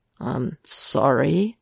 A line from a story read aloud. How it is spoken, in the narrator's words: Matt offers hesitantly